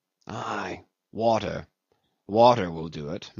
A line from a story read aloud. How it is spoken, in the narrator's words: muttered the other to himself resignedly